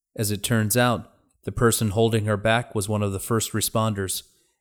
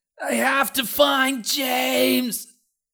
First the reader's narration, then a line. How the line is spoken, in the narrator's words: Danny screamed